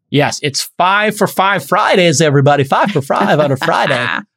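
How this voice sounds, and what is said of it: Radio DJ announcer voice. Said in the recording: “That's my Z100 radio voice.”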